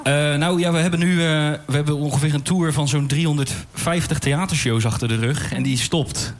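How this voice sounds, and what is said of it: Rotterdam Dutch accent. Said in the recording (Dutch): “Rotterdamse accent”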